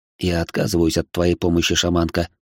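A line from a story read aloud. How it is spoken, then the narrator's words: Calm reply. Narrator (Russian): спокойно ответил я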